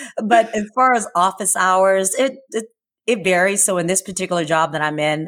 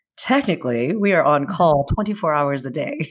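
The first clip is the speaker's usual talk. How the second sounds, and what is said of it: Serious, formal tone. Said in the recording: “there comes the serious voice”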